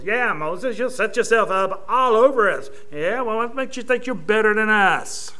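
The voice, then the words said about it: Edward G. Robinson gangster voice impression. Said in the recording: “the guy that's playing him is Edward G. Robinson ... he had that really weird accent.”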